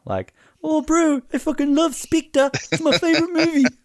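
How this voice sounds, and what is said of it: Put-on accent. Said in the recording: “It's been a while since I've done one of those accents.”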